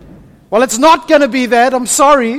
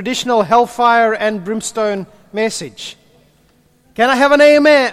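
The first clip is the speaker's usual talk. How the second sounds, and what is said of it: Put-on American accent. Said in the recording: “there I do the American accent again”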